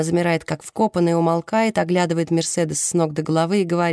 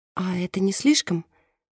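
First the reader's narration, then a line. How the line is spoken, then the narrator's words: Timid question. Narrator (Russian): робко спрашивает Мерседес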